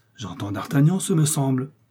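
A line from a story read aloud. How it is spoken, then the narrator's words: Hollow-voiced exclamation. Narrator (French): s'écria la voix creuse d'Athos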